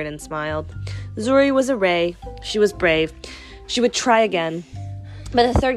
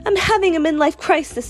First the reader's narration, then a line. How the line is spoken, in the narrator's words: Zuri cried